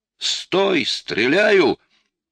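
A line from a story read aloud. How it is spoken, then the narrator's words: Shouted, clear unaccented Russian. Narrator (Russian): на чисто русском, без картавости, прокричал латыш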